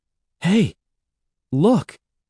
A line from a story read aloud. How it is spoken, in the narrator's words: he cried